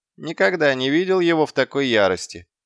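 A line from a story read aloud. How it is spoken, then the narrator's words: Snorting. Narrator (Russian): хмыкнул Гаспод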